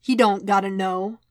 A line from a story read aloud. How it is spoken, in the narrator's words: Wade replied